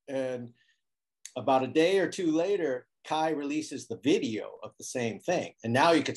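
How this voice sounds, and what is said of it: Usual voice. Nothing is said of it.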